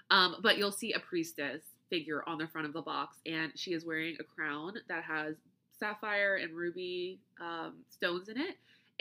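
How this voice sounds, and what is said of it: Flat American accent. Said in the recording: “my flat American accent”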